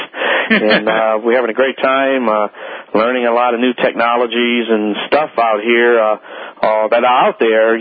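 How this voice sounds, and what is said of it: Hoarse, strained voice. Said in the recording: “Excuse me. ... Oh, Lord, I'm losing my voice”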